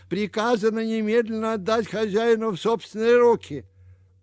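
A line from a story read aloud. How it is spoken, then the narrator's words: Frantic shout. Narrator (Russian): он как угорелый закричал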